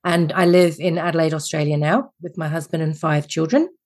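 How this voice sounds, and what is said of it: Refined English accent. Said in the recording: “your fabulous accent ... I'm originally English, as you can tell by my Mary Poppins / Nanny McPhee accent”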